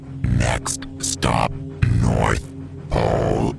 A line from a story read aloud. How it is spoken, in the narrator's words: came the booming cry of a Lord Hailer above